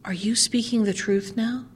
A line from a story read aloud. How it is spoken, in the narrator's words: the daughter said softly to her mother